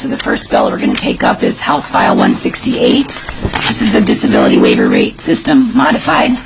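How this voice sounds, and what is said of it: Hoarse, failing voice. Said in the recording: “as you can tell, I'm losing my voice”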